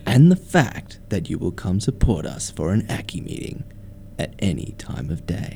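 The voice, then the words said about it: Sexy, ASMR-style breathy voice. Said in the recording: “your sexy accent ... Not an ASMR fan.”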